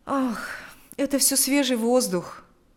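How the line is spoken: Sighing reply. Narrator (Russian): ответил Павел, вздохнув

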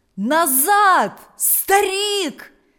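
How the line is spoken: Villagers shouting. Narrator (Russian): закричали селяне позади него

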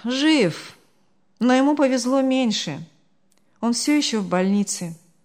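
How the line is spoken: Sighing. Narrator (Russian): вздохнул Артур

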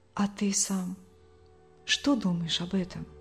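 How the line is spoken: Quiet question. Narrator (Russian): тихо спросила

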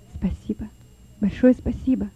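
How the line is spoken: Whispered. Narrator (Russian): прошептал Лёва

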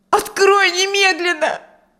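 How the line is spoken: Shouting woman. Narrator (Russian): кричала она

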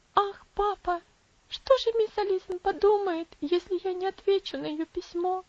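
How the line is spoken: Exclaiming with bitter sobs. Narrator (Russian): воскликнула Элси с горькими рыданиями

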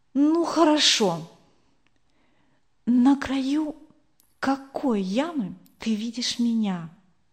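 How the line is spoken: Quiet question. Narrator (Russian): тихо спросила Эльвира

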